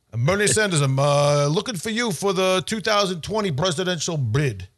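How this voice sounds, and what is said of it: Brooklyn accent impression of a politician. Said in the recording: “a Brooklyn accent ... Sounds like somebody from Rocky ... Sounds like a character from Rocky ... You apparently nail this”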